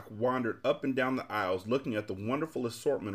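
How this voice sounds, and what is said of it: Usual voice. Nothing is said of it.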